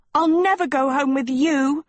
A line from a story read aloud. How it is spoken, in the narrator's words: screamed Sophie